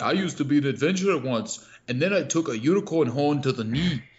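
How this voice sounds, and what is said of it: Nordic-sounding game character accent. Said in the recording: “Whatever that accent just happened. ... It's his accent. It's like a combination of like some kind of Nordic thing”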